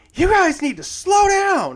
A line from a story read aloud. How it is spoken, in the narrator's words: she screams